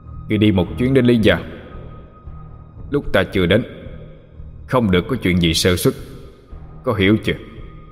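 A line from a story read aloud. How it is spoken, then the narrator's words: Stern voice. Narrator (Vietnamese): Thường Kiệt nghiêm giọng nói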